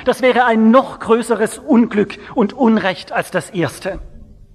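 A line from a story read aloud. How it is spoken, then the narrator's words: Pleading. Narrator (German): flehte an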